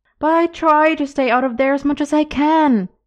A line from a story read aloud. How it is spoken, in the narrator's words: he was pleading with the old man